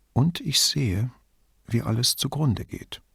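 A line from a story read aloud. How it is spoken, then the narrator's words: Quiet addition after pause. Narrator (German): fügte sie leise hinzu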